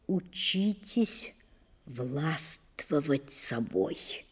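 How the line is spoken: Quiet. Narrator (Russian): тихо посоветовал он

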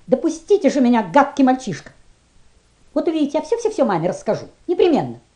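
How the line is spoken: Sudden angry exclamation. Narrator (Russian): она воскликнула неожиданно сердито

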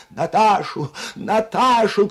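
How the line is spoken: Shouting. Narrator (Russian): кричала графиня

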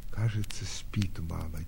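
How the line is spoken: Quiet reply. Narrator (Russian): тихо отвечала Соня

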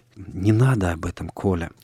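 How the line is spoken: Quiet plea with sigh. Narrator (Russian): тихо попросила Соня и вздохнула

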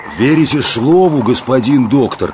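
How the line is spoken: Deep booming bass. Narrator (Russian): загудел виолончельным басом Жилин вахмистр

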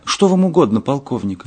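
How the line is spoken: Childlike whistly voice, asking. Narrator (Russian): генерал детским голосом, похожим на голос глиняной свистульки, спросил у Ная

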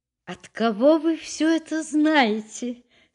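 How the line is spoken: Laughing question. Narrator (Russian): спросила она, смеясь

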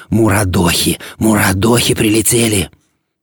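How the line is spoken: Whispering. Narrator (Russian): Больной зашептал

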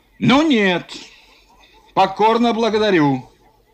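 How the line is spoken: Shouted. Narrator (Russian): крикнул Юшков

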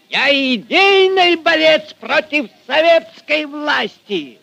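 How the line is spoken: Furious shouting. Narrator (Russian): Багровей от гнева кричал Фомин

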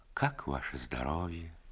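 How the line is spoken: Old woman asking. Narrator (Russian): Приятная старушка спросила

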